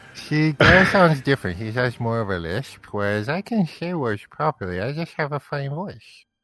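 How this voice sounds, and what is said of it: Wet lisping character voice. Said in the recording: “You literally just lisped on like every single word there. So wetly.”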